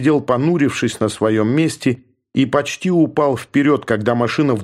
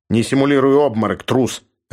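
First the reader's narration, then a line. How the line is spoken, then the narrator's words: Barked. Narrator (Russian): рявкнул Георг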